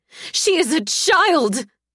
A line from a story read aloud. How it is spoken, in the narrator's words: the words burst from my lips in a scream, harsh and grating